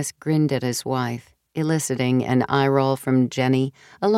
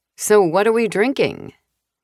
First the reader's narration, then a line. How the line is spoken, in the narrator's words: Rachel's voice snapped